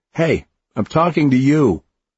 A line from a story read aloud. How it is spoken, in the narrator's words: the man shouted again